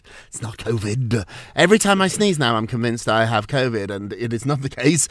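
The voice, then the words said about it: Croaky voice from a cold. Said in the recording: “I sound a little croaky, ... I just have a boring old cold”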